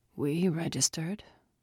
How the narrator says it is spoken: Sal croaked

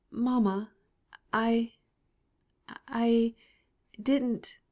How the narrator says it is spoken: stammered Sir Rosa

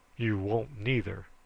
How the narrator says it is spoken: says Bill sternly

